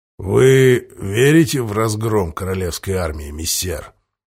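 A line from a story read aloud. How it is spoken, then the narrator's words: Quiet question. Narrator (Russian): тихо спросил Дорофеев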